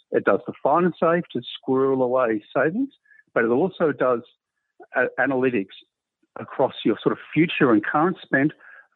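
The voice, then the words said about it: Australian accent. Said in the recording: “part of my Australian accent”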